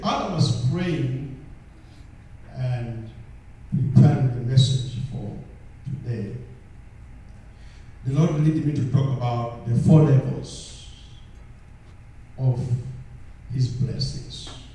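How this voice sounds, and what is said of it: African-accented English. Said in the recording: “my accent is African accent”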